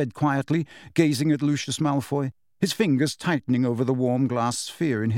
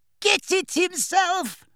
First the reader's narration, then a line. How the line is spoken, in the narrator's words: shrieked Bellatrix on a cackle of mad laughter